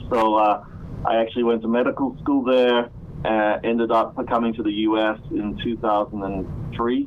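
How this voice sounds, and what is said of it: Australian-tinged accent. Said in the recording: “born in Malaysia, but grew up in Australia, which kind of explains a bit of my accent”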